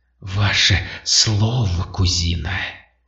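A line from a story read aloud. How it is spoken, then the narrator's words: Tense, clear, cold, unrecognizable voice. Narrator (Russian): натянутая, как струна, ясным, холодным, совершенно неузнаваемым голосом обратилась к толпе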